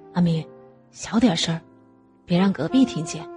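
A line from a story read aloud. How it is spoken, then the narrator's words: Soft. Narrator (Chinese): 吴亮轻声说道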